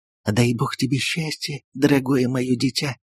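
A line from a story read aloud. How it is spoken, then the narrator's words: Touched, tender whisper. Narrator (Russian): растроганно шептала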